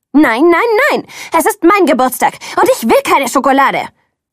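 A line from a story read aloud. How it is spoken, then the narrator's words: Screamed. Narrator (German): schrie ich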